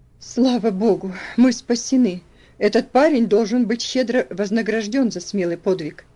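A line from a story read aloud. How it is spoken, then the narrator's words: Relieved exclamation. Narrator (Russian): воскликнул мистер Динсмор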